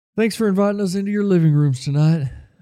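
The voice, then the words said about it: Impression of wrestling announcer JR. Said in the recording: “What was that impression? ... That's what JR always says on wrestling.”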